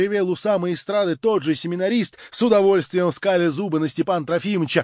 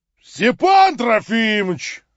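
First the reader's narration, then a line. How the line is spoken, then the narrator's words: Joyful roar. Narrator (Russian): радостно проревел семинарист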